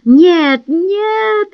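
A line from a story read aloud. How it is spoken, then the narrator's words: Fearful shout. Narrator (Russian): жаждал откровения, но и боялся его, и поэтому закричал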